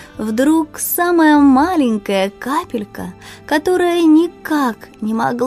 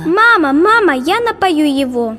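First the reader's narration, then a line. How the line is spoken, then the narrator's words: Eager attention-seeking shout. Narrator (Russian): Кричала она и подпрыгивала, чтобы обратить на себя внимание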